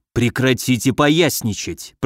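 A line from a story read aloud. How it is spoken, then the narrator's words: Hissed. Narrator (Russian): прошипел Соболев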